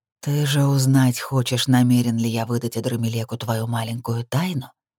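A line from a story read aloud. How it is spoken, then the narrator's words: Hiss close over shoulder. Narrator (Russian): прошипел он над моим плечом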